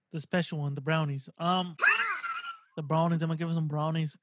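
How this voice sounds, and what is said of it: Bad imitation English accent. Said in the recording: “That was the worst English accent I got.”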